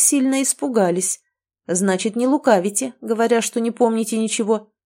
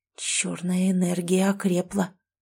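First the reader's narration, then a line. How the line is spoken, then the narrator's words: Whispered remark. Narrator (Russian): шепотом заметил Ксолан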